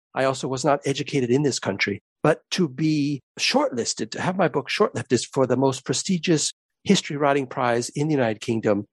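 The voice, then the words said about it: Non-British accent. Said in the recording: “as you can tell from my accent, I'm not originally from this country”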